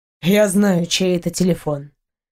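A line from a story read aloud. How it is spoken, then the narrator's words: Muffled, flat. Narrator (Russian): глухо сказал он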